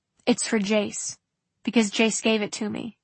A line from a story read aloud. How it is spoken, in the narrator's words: she said before she could help herself